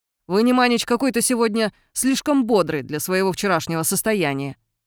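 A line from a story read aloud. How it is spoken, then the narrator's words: Snapping retort. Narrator (Russian): огрызнулся Шандор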